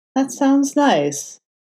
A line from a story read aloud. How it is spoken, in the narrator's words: Matt said, in a wistful tone